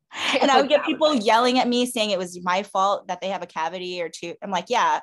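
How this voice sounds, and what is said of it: Usual voice. Nothing is said of it.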